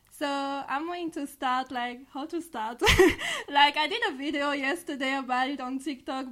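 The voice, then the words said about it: French accent in English. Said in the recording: “I'm from France, so this is for my accent.”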